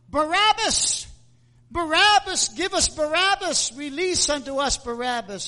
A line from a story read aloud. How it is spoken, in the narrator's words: And the people cried out